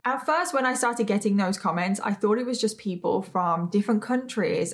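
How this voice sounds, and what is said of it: British accent, sometimes mistaken for Australian. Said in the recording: “asking if I'm Australian ... they're not gonna understand like different British accents ... I even get British people and Australian people thinking that I'm Australian ... I actually get comments all the time about my accent because no one can figure out where I'm from ... I am British. I am not Australian.”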